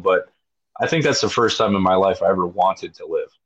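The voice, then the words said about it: Emotional, choked-up voice. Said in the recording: “I'm sorry for getting a little emotional,”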